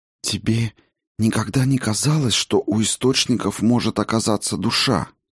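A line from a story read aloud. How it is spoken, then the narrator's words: Dropping to a whisper. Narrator (Russian): Голос Сигарлин упал до шепота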